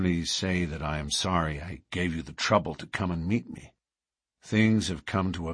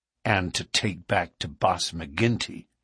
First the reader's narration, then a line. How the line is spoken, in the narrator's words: said Morris bitterly